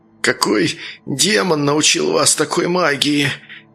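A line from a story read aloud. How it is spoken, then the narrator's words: Slurred exhausted breath. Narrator (Russian): Едва ворочая языком, выдохнул он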